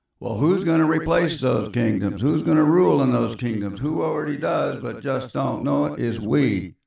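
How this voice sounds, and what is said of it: Southern Kansas drawl. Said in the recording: “Excuse my southern Kansas drawl I switch back to now and then”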